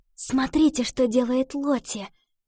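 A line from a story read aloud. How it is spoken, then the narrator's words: Whisper. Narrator (Russian): шепнула Ива девочкам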